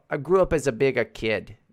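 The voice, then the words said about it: Put-on Australian-sounding accent. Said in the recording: “No, that's Australian. I don't know. My accents are all fucked up today.”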